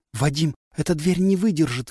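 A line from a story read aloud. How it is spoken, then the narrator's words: Breathless exhale. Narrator (Russian): выдохнула Олли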